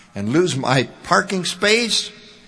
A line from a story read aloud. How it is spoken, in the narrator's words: exclaimed Ty